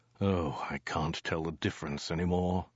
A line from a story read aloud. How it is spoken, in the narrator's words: he said with a sigh